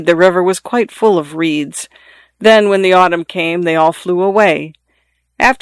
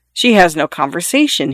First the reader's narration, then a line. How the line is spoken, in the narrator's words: said